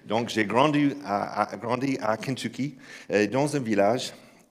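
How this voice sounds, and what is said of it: American accent speaking French. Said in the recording (French): “je sais que cet accent ne vient pas de croix russe”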